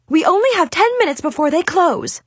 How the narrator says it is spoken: she yelled back

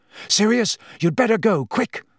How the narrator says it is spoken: Harry panted

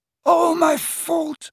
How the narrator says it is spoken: he sobbed

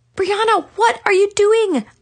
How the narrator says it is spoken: gasped

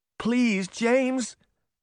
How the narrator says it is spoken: Beauty begged

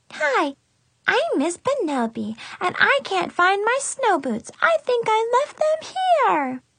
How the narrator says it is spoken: Brianna said in a high, squeaky voice that could have shattered glass

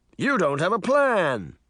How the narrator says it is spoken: Mirror exclaimed

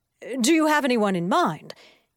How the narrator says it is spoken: asked eagerly

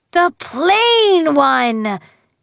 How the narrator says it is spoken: exclaimed Digby

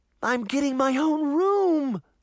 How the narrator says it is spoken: Sabrina squealed happily

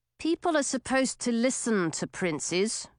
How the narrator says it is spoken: Owen grumbled as he crawled through the opening

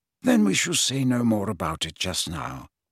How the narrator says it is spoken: said Dumbledore more kindly

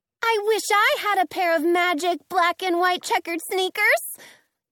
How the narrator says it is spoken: Dorothy yells with a grin, catching on

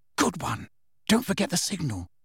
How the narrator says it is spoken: Hermione whispered

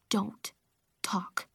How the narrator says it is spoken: I whispered

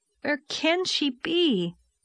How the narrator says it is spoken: said Anne miserably

